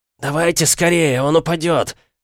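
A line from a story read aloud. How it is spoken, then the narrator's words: Hoarse wheeze. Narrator (Russian): прохрипел Олден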